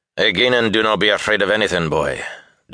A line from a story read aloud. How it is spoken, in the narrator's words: Doman growled protectively